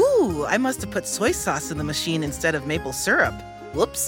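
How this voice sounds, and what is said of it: Usual voice. Nothing is said of it.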